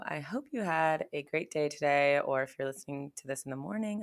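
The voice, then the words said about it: Raspy, hoarse voice. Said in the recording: “My voice sounds a bit interesting today. It's been sounding like I've lost my voice. Not lost, but it's kind of has this raspy tone going to it ... I think I've been talking, like yelling on the mic and stuff a lot at work”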